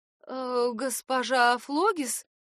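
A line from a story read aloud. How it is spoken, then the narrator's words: Confused voice. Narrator (Russian): Голос девушки звучал растерянно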